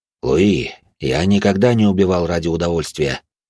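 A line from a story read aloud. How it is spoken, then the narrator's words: Calm. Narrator (Russian): спокойно ответил каратель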